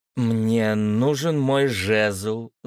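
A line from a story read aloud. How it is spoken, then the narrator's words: Firm declaration. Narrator (Russian): заявила она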